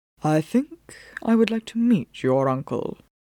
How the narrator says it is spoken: he said quietly

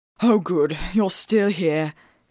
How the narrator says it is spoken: said, gasping a little

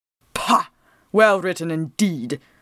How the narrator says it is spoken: Phelps snorted scornfully

